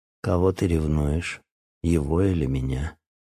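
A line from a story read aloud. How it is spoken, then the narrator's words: Quiet indignant snort. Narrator (Russian): тихо негодующе фыркнула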